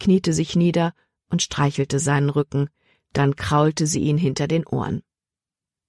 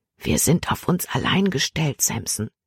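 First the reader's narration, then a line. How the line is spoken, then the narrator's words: Whispered in the ear. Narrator (German): flüsterte sie ihm ins Ohr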